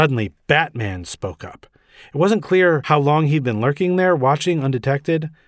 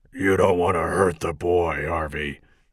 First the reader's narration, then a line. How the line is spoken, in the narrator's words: Batman growled